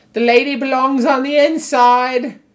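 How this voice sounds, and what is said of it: Fake English accent. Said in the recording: “Some weird faux English accent?”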